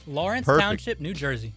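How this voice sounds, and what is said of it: Northeastern US accent. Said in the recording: “Got a little northeastern accent going there. That was perfect.”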